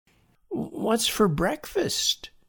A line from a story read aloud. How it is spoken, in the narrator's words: William moaned from under the sheet he had pulled over his head